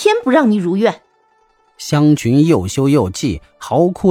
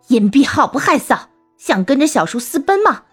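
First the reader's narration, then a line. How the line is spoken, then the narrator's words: Furious scolding. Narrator (Chinese): 妾干氏听说后大怒，骂道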